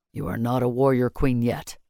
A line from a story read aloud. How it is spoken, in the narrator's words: he said gruffly